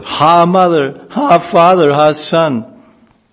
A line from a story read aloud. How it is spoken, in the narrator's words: A devastating fire suddenly broke out, and from all sides, all anyone could hear was cries of